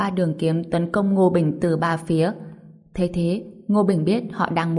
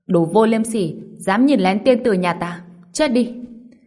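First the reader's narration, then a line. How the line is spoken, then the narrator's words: Group shouting angrily. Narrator (Vietnamese): mấy người hét lên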